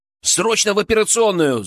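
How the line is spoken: Echoing yell in quiet ward. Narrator (Russian): заорал я, и мой голос эхом разнесся по тихой палате

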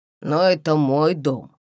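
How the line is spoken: Grumbling. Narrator (Russian): пробурчал мастер

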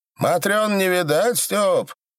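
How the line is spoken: Shouted. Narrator (Russian): крикнул Оляной

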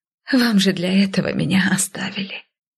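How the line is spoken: Tired whisper. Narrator (Russian): Устало прошептала я

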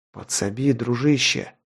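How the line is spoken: Whisper. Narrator (Russian): прошептал

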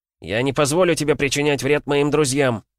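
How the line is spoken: Shouted. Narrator (Russian): крикнул он

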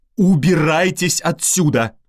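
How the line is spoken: Shouting. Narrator (Russian): закричала

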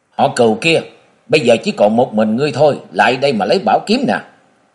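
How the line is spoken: Calm speech. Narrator (Vietnamese): Địch Tuân điềm tĩnh nói

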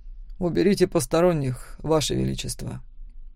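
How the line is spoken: Quiet. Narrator (Russian): тихо сказал Макс

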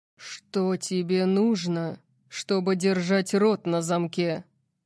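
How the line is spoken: Growl. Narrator (Russian): прорычал он

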